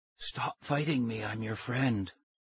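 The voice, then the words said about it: Thin whispery voice. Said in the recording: “He had a thin whisper of a voice.”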